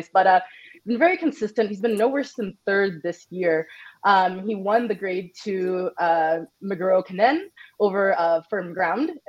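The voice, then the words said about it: Raspy voice from a cold. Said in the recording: “I'm fighting a cold. Excuse my raspy voice.”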